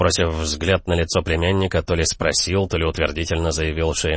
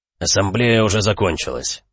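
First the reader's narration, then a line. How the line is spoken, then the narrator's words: Gloomy. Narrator (Russian): мрачно сообщил Велерат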